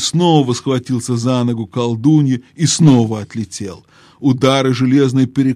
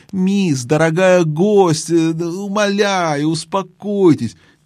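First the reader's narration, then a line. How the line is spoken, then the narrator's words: Trembling shrill whimper. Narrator (Russian): дрожащим и визгливым голосом, скулил дядя Эндрю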